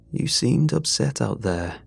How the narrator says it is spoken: I began gently

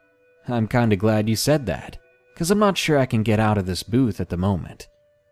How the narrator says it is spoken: He chuckled and mentioned

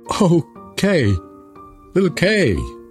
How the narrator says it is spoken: cried Gerda

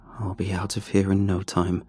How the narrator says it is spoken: I muttered to myself

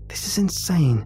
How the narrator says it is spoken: she hisses back

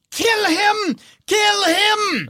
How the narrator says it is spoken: Ludmilla screams

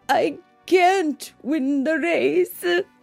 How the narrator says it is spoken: Juan howled and cried

